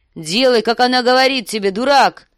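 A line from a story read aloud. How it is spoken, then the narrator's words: Shouting. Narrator (Russian): закричал сир Джорах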